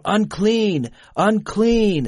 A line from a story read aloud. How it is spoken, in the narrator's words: They were forced to shout